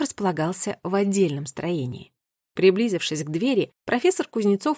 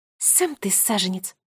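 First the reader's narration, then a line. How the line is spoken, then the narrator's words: Indignant snort. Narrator (Russian): фыркнула Агата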